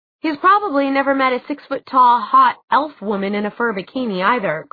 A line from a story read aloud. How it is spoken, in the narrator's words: Clary said irritably